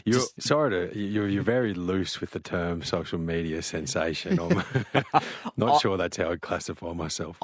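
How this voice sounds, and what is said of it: Deep radio voice. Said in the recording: “His voice alone is worth listening in for. Beautiful, deep radio voice.”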